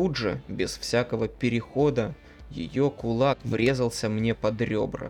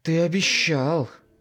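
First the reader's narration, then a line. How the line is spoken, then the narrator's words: Woman growling. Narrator (Russian): рычала она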